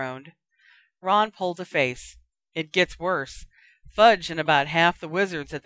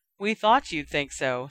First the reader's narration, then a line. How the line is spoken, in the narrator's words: sighed Hermione